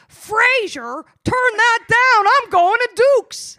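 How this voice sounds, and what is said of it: Impression of Martin Crane from Frasier. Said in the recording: “Everyone's having fun doing impressions”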